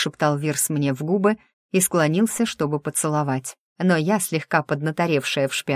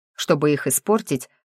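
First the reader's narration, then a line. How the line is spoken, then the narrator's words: Snort. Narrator (Russian): фыркнул напарник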